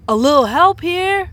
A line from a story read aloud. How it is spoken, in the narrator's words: shouted Arnez from the distance